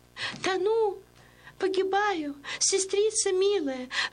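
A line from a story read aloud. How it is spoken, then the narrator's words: Desperate pleading, young woman. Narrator (Russian): взмолилась девица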